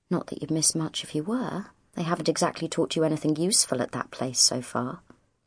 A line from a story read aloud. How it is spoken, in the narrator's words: added under her breath